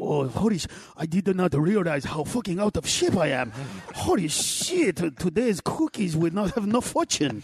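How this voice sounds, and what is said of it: Impression of an out-of-shape Buddha. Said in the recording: “do an impression of him saying, holy shit? ... I'm going to do an impression of him ... Buddha”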